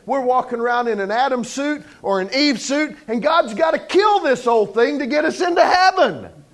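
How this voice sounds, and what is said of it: Loud yelling preacher delivery. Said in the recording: “I'm not yelling at you. I'm yelling for you. I don't yell at people. I yell for people.”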